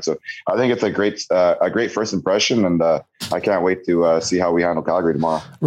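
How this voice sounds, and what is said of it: Raspy hoarse voice. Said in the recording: “Is it my raspy voice? ... I anticipated today was going to be a little bit of a raspy voice today”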